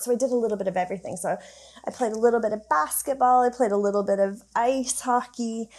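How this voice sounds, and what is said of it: Slightly unusual Canadian accent. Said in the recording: “I grew up in Canada. You can probably tell I've got a bit of a strange accent.”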